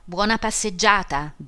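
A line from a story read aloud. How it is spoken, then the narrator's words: Shout. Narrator (Italian): gridò Homais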